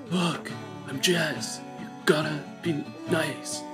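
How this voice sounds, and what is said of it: Imitates a TV character's voice. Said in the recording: “my impression”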